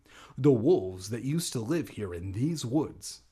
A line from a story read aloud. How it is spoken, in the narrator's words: I said